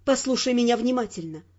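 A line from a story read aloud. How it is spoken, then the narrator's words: Plain. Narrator (Russian): сказала я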